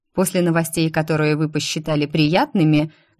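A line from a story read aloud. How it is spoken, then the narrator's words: Mocking question. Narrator (Russian): насмешливо спросила я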